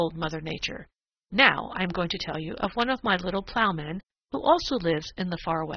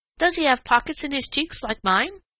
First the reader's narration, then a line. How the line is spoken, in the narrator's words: asked Striped Chipmunk eagerly